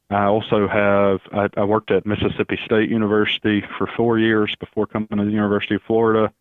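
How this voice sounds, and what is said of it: Alabama Southern US accent. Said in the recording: “I actually grew up in Alabama, in case everybody's wondering where the accent is from.”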